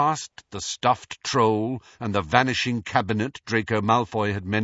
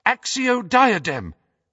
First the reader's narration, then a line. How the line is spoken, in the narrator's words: cried Hermione in desperation